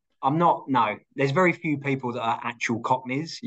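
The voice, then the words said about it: Cockney-tinged English accent. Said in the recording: “I'm originally from the UK, as you can probably tell by my Cockney twang accent. ... born and brought up around Essex”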